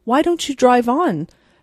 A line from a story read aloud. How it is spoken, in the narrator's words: said Miss Lantry impatiently